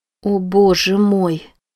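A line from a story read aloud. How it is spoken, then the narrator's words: Quiet, weak voice. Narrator (Russian): тихим бессильным голосом произнесла Рози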